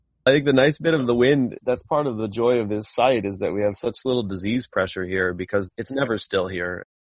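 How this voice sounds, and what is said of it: American accent. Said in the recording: “You may tell from my accent that I'm from the United States. I don't quite sound exactly like the South African wine farmer.”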